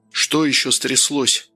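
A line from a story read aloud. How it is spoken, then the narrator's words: Tired father asking. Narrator (Russian): устало спросил отец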